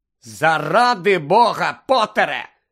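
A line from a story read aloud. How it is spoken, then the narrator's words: Angry. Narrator (Ukrainian): сердито професорка МакГонагал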